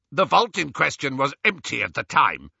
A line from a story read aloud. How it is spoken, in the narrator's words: snapped the goblin